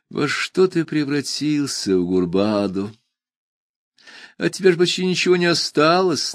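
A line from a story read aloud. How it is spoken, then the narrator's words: Sighing. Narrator (Russian): наконец вздохнул он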